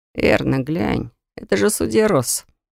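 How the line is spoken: Muttering. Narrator (Russian): пробормотал Фирс

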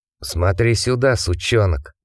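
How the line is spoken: Hissing teenager. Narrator (Russian): прошипел подросток

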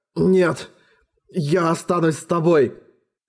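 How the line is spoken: Trembling voice. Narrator (Russian): дрожащим голосом ответил Эрагон

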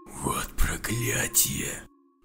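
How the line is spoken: Hiss. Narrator (Russian): Прошипел Элмер

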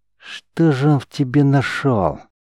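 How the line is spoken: Hissed. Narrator (Russian): прошипел сотник

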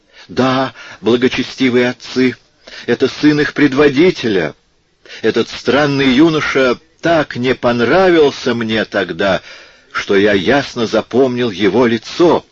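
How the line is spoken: Frightened, relieved exclamation. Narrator (Russian): воскликнул испуганный трактирщик, радуясь, что скоро отделается от монахов

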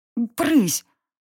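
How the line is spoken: Sleepy mutter. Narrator (Russian): Буркнула я сквозь сон

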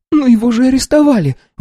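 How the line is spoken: Exclaiming. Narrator (Russian): воскликнула она

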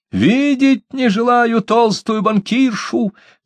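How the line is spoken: Shouting. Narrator (Russian): кричала

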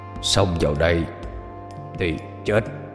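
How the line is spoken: Deep gruff voice. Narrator (Vietnamese): Hắn cất cái giọng ồm ồm

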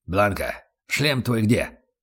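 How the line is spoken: Sudden growl. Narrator (Russian): рыкнул вдруг Аслан

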